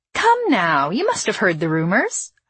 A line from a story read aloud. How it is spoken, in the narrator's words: I said cheerfully